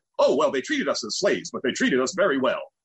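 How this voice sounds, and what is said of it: Imitation of comedian Chauncey. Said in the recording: “And that's my imitation of him.”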